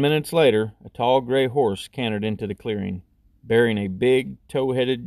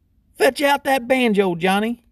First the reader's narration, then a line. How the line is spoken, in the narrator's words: he yelled